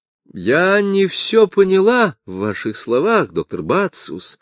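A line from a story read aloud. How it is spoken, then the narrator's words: Calm. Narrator (Russian): спокойно ответила она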